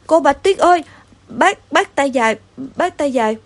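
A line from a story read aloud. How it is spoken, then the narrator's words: Stammering. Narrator (Vietnamese): Thằng xám anh lắp bắp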